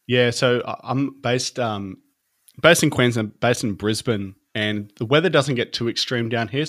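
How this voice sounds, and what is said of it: Australian accent. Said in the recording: “you have an accent ... I'm from Australia, in a place called Brisbane in Queensland.”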